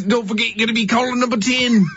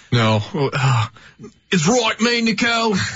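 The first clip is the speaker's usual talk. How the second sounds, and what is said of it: Put-on Australian accent, drifting New Zealand. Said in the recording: “Can you do the Australian accent? ... And then I went straight to New Zealand there at the end of that one.”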